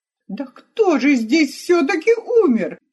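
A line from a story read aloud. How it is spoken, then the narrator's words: Despairing exclamation. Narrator (Russian): Почти уже потеряв надежду получить разъяснение, воскликнул Ромео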